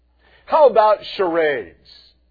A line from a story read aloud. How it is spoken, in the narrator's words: said sarcastically